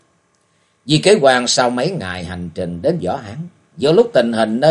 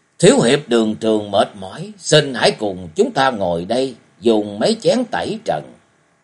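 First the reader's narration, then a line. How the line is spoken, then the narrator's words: Smiling. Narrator (Vietnamese): Lăng Phong đạo trưởng mỉm cười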